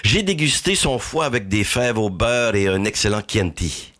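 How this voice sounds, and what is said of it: Put-on accent for movie quote. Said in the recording (French): “il y a aussi un accent, là.”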